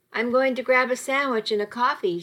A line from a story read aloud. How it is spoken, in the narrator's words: she said